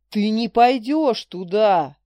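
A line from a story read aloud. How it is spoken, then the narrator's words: Roared. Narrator (Russian): Дрейк не просто повысил голос, взревел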